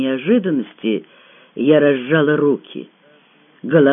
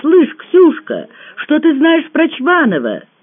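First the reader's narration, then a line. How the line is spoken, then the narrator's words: Shouting. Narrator (Russian): закричала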